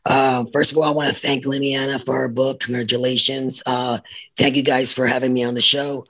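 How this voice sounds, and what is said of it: Raspy, rough voice. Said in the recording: “Excuse my voice, by the way. I have a raspy voice right now this in the mornings.”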